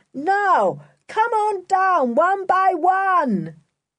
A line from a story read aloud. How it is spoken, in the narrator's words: shouted up Sooty